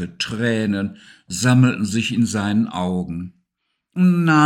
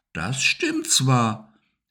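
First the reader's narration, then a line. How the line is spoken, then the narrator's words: Plain. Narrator (German): antwortete Sigi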